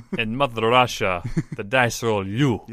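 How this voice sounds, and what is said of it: Put-on Russian accent, throaty. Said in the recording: “Saying Medved keeps me in the accent... It's harder. H. It's more throat.”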